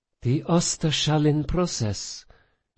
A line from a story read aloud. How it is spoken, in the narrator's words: Sophia breathed, betrayed by her own rising excitement